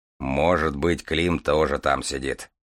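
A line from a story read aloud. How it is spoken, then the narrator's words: Grumbling. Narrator (Russian): проворчал Железовский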